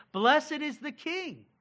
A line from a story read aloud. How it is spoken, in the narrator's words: They were shouting out